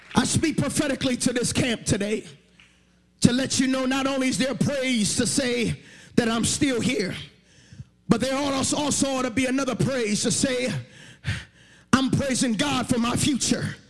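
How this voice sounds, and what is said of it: Shouting preacher. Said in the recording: “you think I'm shouting now?”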